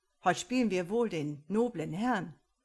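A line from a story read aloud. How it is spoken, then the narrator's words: Captain calling out. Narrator (German): rief der Kapitän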